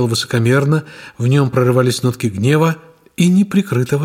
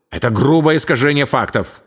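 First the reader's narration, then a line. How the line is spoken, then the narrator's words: Sharp blurt. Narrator (Russian): резко выпалил он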